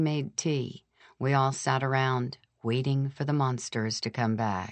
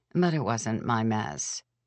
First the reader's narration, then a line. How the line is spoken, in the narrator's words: I said wearily